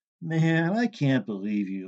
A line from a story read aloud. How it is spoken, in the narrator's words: Larry said